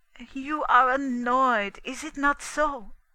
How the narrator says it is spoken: he asked anxiously

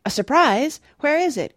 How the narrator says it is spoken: cried Oliver

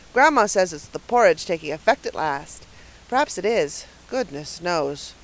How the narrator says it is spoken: Paul sighed deeply

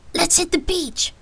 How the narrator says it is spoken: Brandon excitedly replied

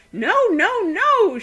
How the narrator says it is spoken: shrieked Daisy, infuriated that Arioch, just because he was going to have a funeral, should be presumed dead

